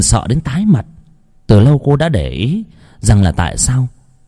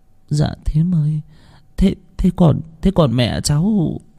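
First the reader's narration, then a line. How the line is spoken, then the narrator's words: Stammering, hesitant. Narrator (Vietnamese): cô ấp úng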